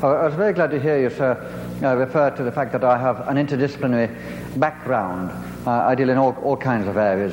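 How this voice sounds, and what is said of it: Foreign accent. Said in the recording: “No problems with my foreign accent, I hope.”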